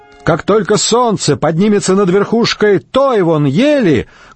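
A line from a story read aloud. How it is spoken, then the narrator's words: Loud rider. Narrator (Russian): громко проговорил всадник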